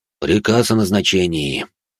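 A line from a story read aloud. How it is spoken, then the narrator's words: Sighing announcement. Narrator (Russian): вздохнув, сообщил он коллегам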